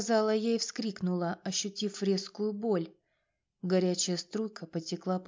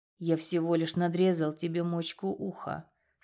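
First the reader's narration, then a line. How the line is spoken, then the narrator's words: Calm. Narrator (Russian): спокойно сказал Прохор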